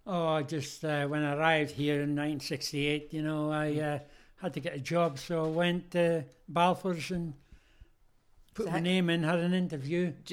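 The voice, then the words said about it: Noticeable non-local accent. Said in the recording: “Couldn't tell by his accent.”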